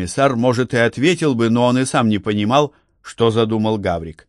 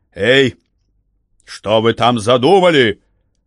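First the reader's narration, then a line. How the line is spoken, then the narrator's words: Shout. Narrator (Russian): Номенклатор крикнул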